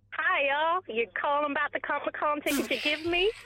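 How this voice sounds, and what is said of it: Put-on accent. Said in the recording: “try to sway us with the old accent, is it? ... Because I like the accent.”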